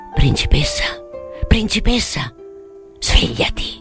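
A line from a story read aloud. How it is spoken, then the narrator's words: Whispered. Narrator (Italian): sussurrò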